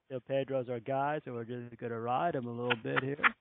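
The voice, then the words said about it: Impression of Grady Little. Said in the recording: “give us a Grady impersonation. You do a great Grady Little. ... I love your Grady impersonation.”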